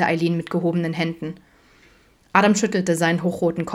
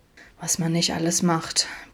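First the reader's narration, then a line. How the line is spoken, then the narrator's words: Sullen grumbling. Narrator (German): brummte er missmutig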